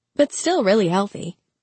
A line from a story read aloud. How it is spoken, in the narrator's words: she added quickly, because she had a superstition about referring to Rufus's age